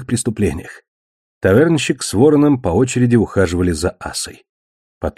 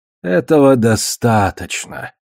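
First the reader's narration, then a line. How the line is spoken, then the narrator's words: Theatrical sigh. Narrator (Russian): театрально вздохнул Кар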